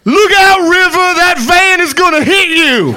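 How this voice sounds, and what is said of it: Imitates an audience member shouting. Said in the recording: “want to do a quick impression, ... This is a black guy in the audience at Inception.”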